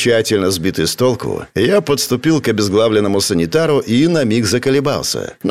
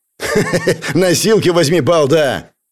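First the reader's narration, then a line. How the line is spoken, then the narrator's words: Angry mocking laugh. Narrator (Russian): зло рассмеялся автоматчик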